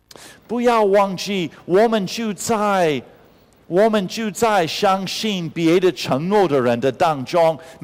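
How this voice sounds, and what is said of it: Cute accented Mandarin. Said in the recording (Chinese): “因为你的口音很可爱”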